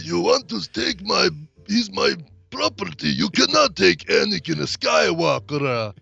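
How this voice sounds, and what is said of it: Thick put-on Russian-sounding accent. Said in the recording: “very thick, hard to understand accent ... Russian all of a sudden”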